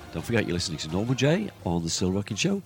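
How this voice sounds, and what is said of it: Croaky, rough voice. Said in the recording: “my voice is a bit croaky today, suffering from the dreaded”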